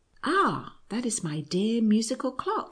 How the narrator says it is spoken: exclaimed Maria joyfully

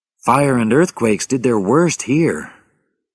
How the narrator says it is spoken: Rachel said sadly

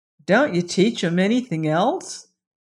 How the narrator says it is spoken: asked Dorothy

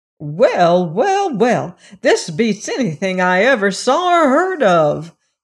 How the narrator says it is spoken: exclaimed Aunt Em, and she glanced at the wizard almost fearfully

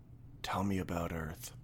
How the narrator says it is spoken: he whispered

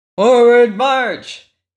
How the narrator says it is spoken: shouted the majors

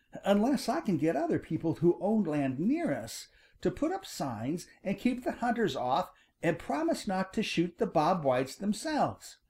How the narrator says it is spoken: exclaimed Farmer Brown's boy eagerly

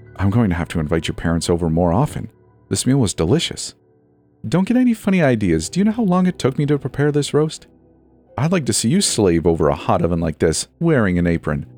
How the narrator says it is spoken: chuckled

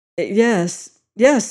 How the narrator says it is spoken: he stuttered

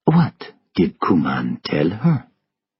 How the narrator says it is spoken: Ludd asked softly

